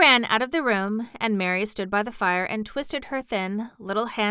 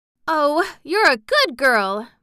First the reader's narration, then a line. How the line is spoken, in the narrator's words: Mary cried